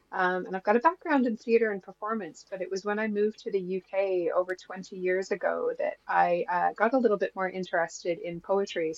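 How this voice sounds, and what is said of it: Canadian English accent. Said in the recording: “as you can hear, I don't have a Yorkshire accent, so I originally hail from Canada”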